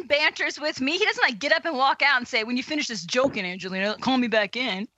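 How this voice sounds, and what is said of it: Imitates another person's voice. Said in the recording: “That's my Matthew Yocke impersonation.”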